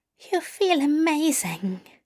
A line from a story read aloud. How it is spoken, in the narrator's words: Aziraphale breathed